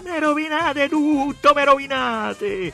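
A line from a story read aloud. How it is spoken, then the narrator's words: Angry, hateful voice. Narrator (Italian): Con tanta rabbia, con tanto odio della voce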